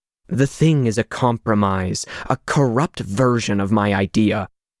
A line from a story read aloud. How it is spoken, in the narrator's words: Tesla growled